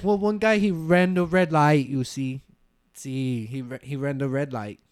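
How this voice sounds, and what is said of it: Put-on accent, slightly Asian-sounding. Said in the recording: “I think my accent, you know, I think it go a little Asian every now and then.”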